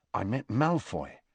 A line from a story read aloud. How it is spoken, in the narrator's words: Harry told her quietly